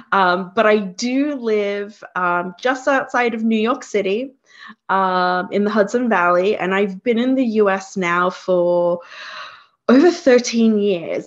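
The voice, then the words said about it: Slight Australian accent. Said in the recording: “I'm originally from Australia... that's why you hear the accent, or at least traces of it”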